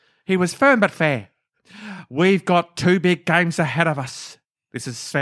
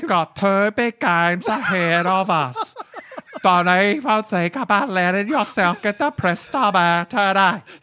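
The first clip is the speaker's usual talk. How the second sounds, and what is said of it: Impression of Sven Goran Eriksson's accent. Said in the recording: “I'll try to do Sven's accent ... if you've ever met Sven, it was spot on.”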